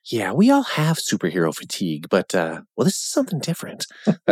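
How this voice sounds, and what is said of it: Imitates another person's voice. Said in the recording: “my Ryan Reynolds impression... It's pretty good.”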